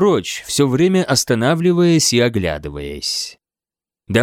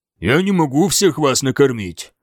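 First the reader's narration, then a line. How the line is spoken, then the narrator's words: Grumbling. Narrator (Russian): проворчал он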